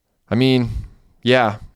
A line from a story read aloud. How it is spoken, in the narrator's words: Derek sighed